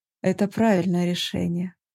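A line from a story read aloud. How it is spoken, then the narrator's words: Agreeing. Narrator (Russian): согласился со мной Дармат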